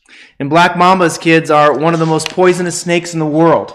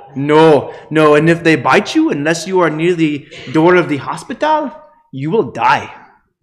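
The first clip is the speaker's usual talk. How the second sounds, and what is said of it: Put-on Malawian accent. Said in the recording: “I'm going to try not to go into the Malawian accent, but it's hard. It's in my head.”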